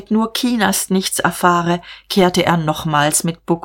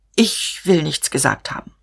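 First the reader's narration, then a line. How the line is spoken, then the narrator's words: Stammered. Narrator (German): stammelte er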